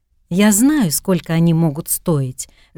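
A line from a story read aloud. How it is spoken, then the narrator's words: Open, joyful smiling. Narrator (Russian): женщина улыбнулась открыто, радостно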